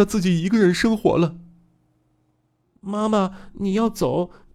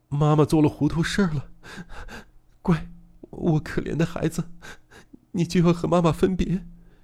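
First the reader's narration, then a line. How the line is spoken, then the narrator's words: Woman sobbing. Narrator (Chinese): 文子小姐抽抽啼啼的哭着说道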